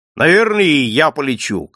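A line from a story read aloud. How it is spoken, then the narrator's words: Joyful. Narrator (Russian): Каширин сказал это так же радостно, как и все остальное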